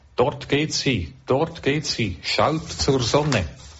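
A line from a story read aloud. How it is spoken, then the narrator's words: Calling out to crowd. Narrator (German): rief zur Menge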